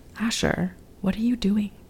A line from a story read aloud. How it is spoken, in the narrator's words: whispered in Yiddish